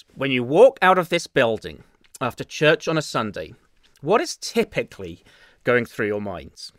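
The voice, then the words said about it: English accent. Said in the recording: “my dulcet English accent”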